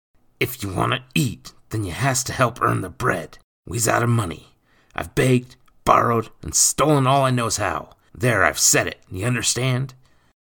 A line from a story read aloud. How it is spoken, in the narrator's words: Speaking in low tones, he hissed